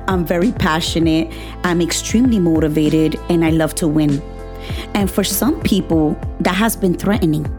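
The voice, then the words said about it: Hispanic-accented English. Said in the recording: “because I'm Hispanic. I have an accent, if you haven't realized that yet.”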